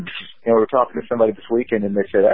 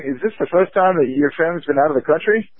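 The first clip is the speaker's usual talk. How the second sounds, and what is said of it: Put-on Canadian or New Zealand accent. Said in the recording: “my very good Canada accent there. I was trying to do more Canada, sound like New Zealand”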